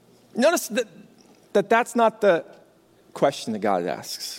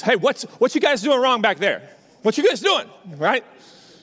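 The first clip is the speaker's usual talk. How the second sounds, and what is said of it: Big booming dad voice. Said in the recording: “I ring out with the kind of big dad voice”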